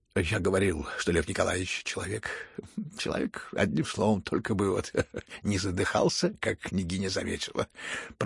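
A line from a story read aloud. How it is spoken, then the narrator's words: Joyful muttering. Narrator (Russian): пробормотал генерал в радостном упоении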